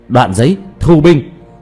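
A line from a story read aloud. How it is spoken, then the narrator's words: Loud call. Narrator (Vietnamese): Diệp Thiếu Dương lớn tiếng kêu lên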